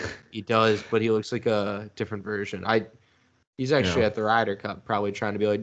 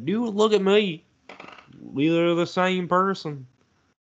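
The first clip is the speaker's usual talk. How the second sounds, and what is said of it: Bad put-on Southern accent. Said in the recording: “That was a really bad Southern accent.”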